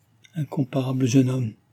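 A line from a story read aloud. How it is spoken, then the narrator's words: Barely intelligible exclamation. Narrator (French): s'écria-t-elle d'une voix à peine intelligible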